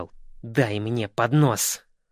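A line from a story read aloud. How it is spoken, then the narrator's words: Grumbling. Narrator (Russian): Он проворчал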